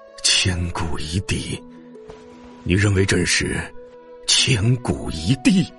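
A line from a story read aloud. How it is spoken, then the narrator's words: Stunned murmuring. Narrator (Chinese): 秦始皇浑身一震，喃喃自语着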